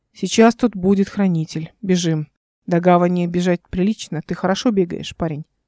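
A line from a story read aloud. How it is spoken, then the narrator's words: Plain. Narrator (Russian): спросила она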